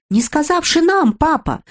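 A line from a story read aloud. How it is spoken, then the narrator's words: Two girls shouting, desperate, surprised. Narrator (Russian): крикнули разом обе девочки отчаянным и удивленным голосом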